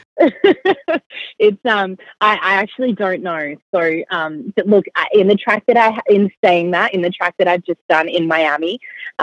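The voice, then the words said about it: Australian accent. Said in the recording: “I can hear your accent ... I sound really Australian”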